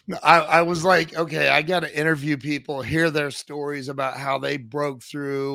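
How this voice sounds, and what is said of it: Strained, recovering voice. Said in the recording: “I apologize for my voice. It's been gone. It's just now coming back.”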